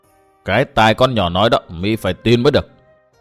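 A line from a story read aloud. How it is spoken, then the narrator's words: Cold, echoing voice. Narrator (Vietnamese): một giọng nói lạnh lùng vang vọng lại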